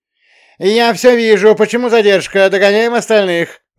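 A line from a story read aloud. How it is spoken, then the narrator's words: Hysterical yell. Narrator (Russian): заорал прилизанным истеричным голосом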